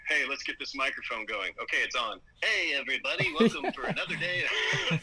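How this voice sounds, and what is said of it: Put-on announcer voice. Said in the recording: “My voice changes... My voice is just changing this way”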